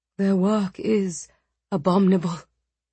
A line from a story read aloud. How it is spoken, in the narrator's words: Zara said, her voice low and furious